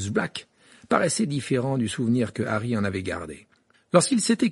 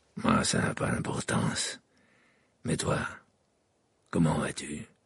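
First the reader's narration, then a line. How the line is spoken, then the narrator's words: Grave tone. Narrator (French): répondit Sirius d'un ton grave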